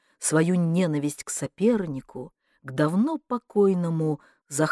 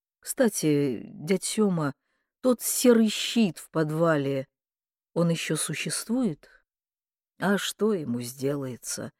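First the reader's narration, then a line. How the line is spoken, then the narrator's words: Tired mumble. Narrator (Russian): пробормотал дядька, прикрывая глаза от усталости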